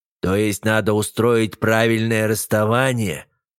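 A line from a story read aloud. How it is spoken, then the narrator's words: Wry snort. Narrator (Russian): хмыкнул Френ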